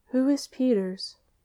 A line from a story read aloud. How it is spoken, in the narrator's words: the freshman inquired timidly